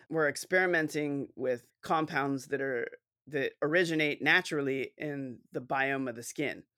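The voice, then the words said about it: Posh English accent. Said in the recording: “everything sounds posher with an English accent.”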